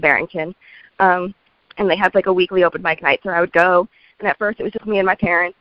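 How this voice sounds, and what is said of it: Croaky voice from a cold. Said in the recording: “I sound so much like a frog right now. I have such a bad... cold”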